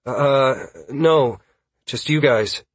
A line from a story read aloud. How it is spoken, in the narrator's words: Caius said, hesitantly at first, then with more confidence after he had a moment to think about it